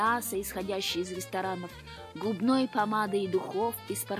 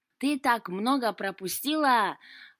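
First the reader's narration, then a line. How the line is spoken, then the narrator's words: Joyful drunken cat. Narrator (Russian): радостным пьяным голосом начал кот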